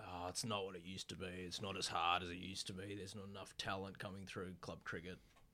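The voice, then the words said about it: Imitates grumbling old men. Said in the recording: “these old guys say ... That was my impression of, you know, us.”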